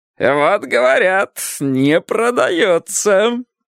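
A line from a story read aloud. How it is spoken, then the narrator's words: Smug, laughing. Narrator (Russian): самодовольно сказал Сковородников и захохотал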